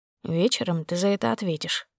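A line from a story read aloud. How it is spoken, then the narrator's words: Barely audible. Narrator (Russian): сказал он едва слышно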